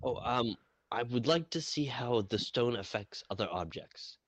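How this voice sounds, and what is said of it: Speaks in a character voice. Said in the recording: “The character thing, character voice.”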